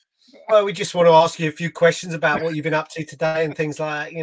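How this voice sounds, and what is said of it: Boring, flat imitation of other people. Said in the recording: “doing a perfect impression of how boring we are ... Nailing it. Absolutely nailing it.”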